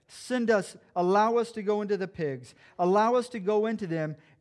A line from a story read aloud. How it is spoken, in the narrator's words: the demons begged